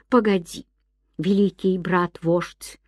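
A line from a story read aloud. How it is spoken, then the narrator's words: Plain. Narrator (Russian): сказал маленький бобр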